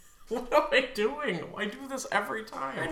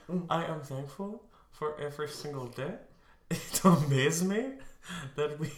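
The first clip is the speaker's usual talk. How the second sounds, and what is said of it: Weird put-on reading voice. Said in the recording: “you do the weird voices. ... It's your voice demo reel.”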